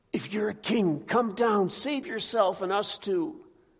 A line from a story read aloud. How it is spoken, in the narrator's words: the other two crucified men between groans are gasping